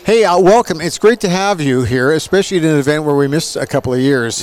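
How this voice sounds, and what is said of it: Booming arena announcer voice. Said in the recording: “You definitely have that hockey arena announcer voice.”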